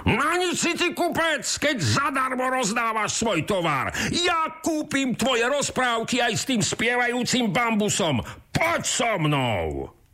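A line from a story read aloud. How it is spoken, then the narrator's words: Shouting. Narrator (Slovak): kričí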